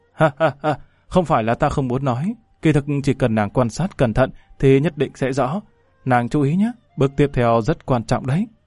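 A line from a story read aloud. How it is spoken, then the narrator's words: Bursting into laughter. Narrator (Vietnamese): Lâm Văn Vinh cười phá lên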